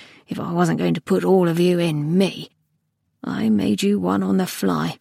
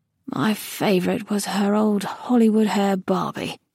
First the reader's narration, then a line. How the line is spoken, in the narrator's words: he murmured